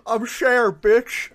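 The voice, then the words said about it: Surly drunken old man voice. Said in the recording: “You sound like a surly, drunken old man.”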